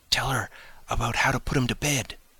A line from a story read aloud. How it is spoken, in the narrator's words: whispered Cyril